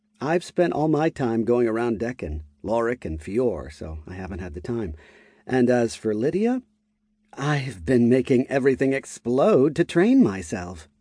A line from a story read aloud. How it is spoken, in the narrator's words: Lydia said with a wide grin